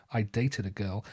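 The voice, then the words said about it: Bad put-on American accent. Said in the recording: “the American audience ... Why did you do an accent ... that was absolutely horrendous?”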